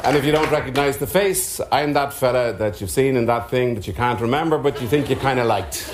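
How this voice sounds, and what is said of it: Irish accent. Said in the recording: “If you don't recognise the accent, I'm Irish.”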